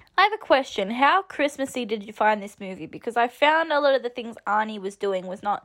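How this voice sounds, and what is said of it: Usual voice. Nothing is said of it.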